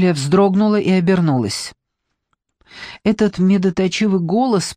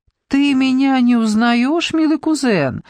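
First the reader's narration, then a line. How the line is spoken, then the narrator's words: Woman's coo. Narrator (Russian): проворковала женщина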